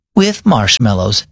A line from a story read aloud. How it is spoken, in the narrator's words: she said